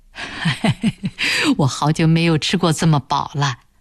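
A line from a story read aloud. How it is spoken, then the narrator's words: Old man laughing contentedly. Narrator (Chinese): 老人……对暖暖笑道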